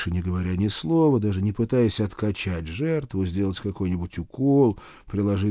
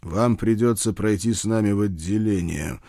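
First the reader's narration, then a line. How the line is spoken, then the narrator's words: Growled with restrained hatred. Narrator (Russian): с трудом сдерживая ненависть в голосе, прорычал я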